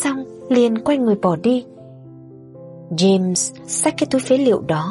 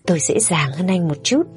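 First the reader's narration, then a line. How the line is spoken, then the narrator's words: Cheerful, smiling. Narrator (Vietnamese): Người lang thang đó khẽ nhếch miệng cười, nói một cách rất vui vẻ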